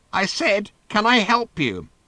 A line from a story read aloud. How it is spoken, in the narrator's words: she said in a thin, scratchy voice that he could only just hear